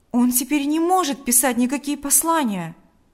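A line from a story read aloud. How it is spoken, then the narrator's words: Exclamation. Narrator (Russian): воскликнул Павел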